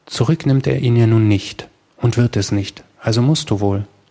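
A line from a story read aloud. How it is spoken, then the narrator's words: Very calm. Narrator (German): sprach Amata endlich ganz ruhig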